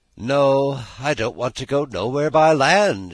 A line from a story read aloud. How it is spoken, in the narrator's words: she answered gaily